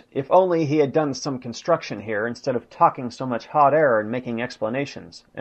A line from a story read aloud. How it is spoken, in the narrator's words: causing Hitler to exclaim, after failure of Citadel